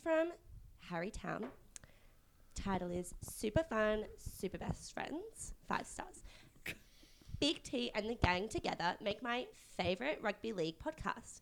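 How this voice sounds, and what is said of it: Put-on Eastern suburbs girl accent. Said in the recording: “I'm doing my favourite accent. I'm doing Eastern suburbs girl whose boyfriend is a DJ.”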